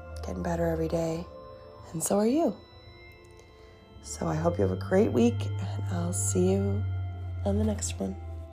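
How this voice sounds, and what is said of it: Stuffy, congested voice. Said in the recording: “in my stuffy up voice.”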